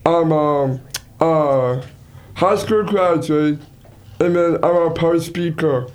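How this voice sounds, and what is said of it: Slow speech with a Down syndrome accent. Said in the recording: “I have a Down syndrome accent... I'm going to speak slow so you can understand what I'm saying”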